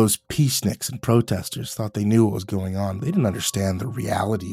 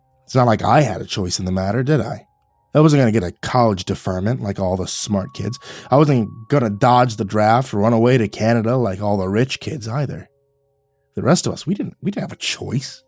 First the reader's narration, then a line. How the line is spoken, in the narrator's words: Jack scoffed at me and said